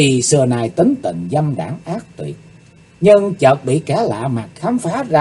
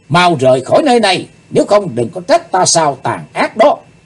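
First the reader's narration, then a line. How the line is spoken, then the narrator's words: Loud shout. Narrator (Vietnamese): Chàng hét lớn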